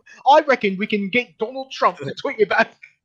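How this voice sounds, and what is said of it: Imitating Sargon's accent. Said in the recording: “No, you gotta say it with the accent.”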